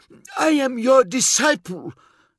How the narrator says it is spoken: he gasped at the uncaring air

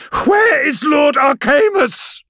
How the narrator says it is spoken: Ikaro yells

